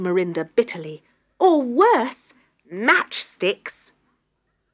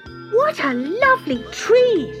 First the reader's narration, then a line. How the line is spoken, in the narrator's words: they exclaimed